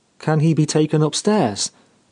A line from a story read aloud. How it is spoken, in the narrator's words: asked Geraldine